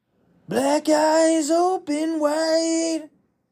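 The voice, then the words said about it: Sung imitation of another person's voice. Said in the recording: “my Bradley Cooper impression.”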